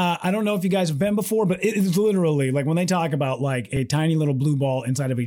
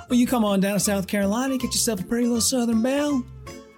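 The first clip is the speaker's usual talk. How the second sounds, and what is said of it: Put-on Southern US accent. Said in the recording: “hung out with people who have accents ... we got some relatives from South Carolina ... they have a weird Southern accent”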